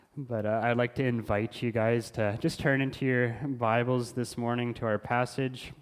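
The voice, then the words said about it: Recovering voice, slight throat tickle. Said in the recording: “I had lost my voice earlier this week, so I have a bit of a tickle in my throat, so please bear with me if I have to clear my throat”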